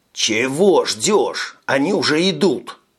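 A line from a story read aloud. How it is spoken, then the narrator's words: Growling. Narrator (Russian): прорычал Тони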